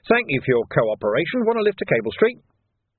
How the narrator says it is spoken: he said cheerfully

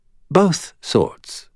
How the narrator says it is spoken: Felicia said, her tone light

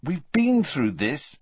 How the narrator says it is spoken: said Harry crossly

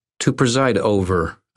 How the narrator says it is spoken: said, and snorted

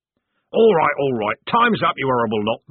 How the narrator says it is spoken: barked Corporal Strappy

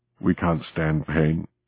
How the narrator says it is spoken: muttered

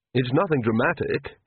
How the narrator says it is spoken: he said quickly

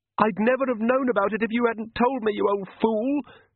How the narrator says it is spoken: screamed the girl

